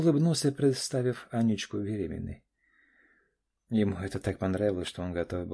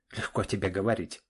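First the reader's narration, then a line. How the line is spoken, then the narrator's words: Snapping. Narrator (Russian): огрызнулся Саша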